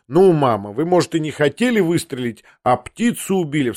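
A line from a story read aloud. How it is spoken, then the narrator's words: Laughing outcry. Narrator (Russian): вскричал я, тоже рассмеявшись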